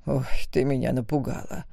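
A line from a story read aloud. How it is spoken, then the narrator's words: Exhaled. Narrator (Russian): выдохнул Дитмир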